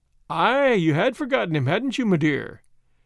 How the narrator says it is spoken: said Sir Percy merrily

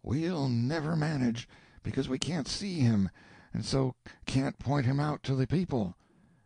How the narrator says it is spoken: the whispers said

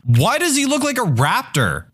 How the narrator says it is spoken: she yelled

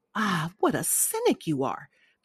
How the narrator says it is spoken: cried the old lady

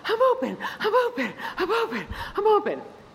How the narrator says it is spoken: running up and down the court, panting

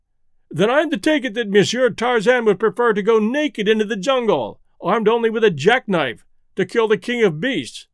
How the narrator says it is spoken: laughed the other, good-naturedly, but with the merest touch of sarcasm in his voice

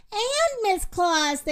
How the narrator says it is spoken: they yelled

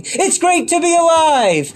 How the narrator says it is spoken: an inner enthusiastic voice shouting

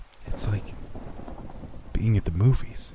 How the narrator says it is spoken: Caitlin whispered

